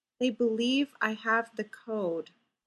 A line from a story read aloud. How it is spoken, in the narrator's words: Fraser said softly